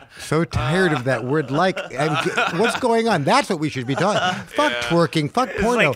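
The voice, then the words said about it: Impression of rich Chinese university girl. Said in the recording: “my impersonation of a rich Chinese girls on Greenwich down at New York University”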